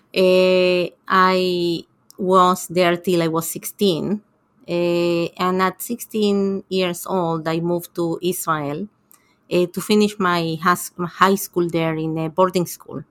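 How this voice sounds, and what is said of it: Argentine accent in English. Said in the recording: “I grew up in Argentina, and I think that most people can hear that from my accent.”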